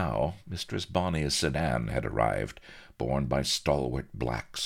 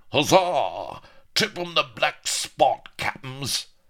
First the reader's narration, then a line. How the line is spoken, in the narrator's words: said Aneurin primly, while the pirates roared